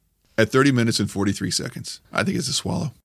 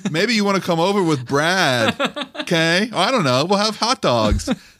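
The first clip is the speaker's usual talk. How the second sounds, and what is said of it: Imitates a seventh grade girl. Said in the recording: “my seventh grade girl impersonation.”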